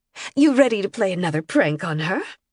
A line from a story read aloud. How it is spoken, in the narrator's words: Emily snorted